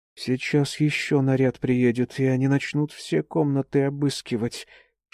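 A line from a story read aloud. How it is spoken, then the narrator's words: Woman whispering. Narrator (Russian): шепотом предположила одна из жиличек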